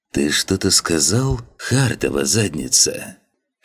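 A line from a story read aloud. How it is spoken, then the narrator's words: Insinuating, affectionate tone. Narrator (Russian): Вкрадчиво произнес он с ласковыми нотками в голосе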